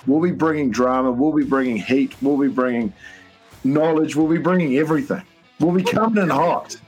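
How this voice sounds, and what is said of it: Speaks with a sweet accent. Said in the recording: “That sweet little accent, ladies and gentlemen, that you hear there talking.”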